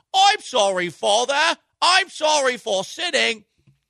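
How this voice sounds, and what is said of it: Put-on Cockney British accent. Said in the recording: “apologize with a British accent ... apologizing to your dad in a Cockney accent”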